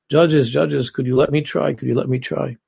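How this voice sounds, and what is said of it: Heavy Eastern European Jewish accent. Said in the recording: “an old Eastern European Jew stood up in the full dress, and he said with a heavy accent”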